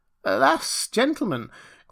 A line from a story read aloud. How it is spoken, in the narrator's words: cried Rip, somewhat dismayed